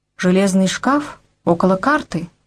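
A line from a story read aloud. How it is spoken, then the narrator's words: Plain. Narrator (Russian): сказал сержант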